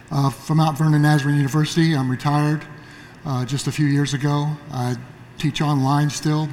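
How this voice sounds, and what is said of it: Slightly hoarse voice. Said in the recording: “I'm trying to get my voice up. I'm a little hoarse today.”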